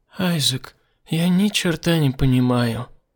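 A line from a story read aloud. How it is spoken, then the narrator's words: Sad. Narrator (Russian): печально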